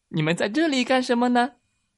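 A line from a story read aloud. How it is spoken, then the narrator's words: Laughing. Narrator (Chinese): 小青蛙哈哈的笑着说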